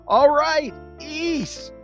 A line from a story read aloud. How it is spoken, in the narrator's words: Charlie Brown's had enough and just screams